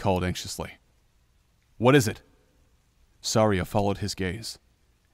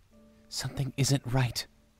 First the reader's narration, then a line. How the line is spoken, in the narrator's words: Navi said, her voice hushed